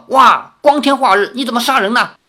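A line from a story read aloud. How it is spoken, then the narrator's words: Alarmed cry. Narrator (Chinese): 赵灵儿惊呼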